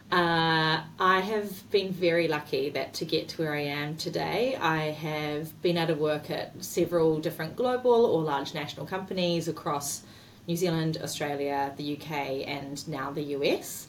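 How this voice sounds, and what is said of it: New Zealand accent. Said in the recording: “As you can hear from the accent, I am Kiwi.”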